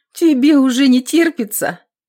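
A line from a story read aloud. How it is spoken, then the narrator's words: Bursting into laughter. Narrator (Russian): Аксинья, не выдержав, засмеялась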